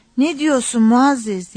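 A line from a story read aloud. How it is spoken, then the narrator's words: Cried out. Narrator (Turkish): diye haykırdı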